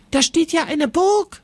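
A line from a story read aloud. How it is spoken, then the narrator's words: Calling out. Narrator (German): ruft Jonas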